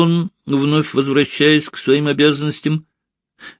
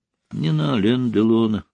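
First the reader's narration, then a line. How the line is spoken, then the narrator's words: Whispered. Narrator (Russian): вновь прошептала Ольга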